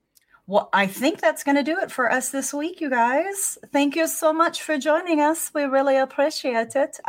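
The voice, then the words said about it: Speaks in an unexpectedly changed accent. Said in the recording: “I don't know what's going on with my accent. ... Yeah, you've completely changed your accent.”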